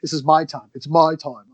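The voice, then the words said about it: Bad put-on Australian accent. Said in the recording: “I'm trying to say it in a bad Australian accent”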